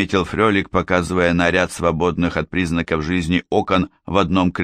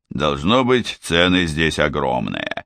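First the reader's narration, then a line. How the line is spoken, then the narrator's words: Strange grumble. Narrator (Russian): проворчал Гуннар странно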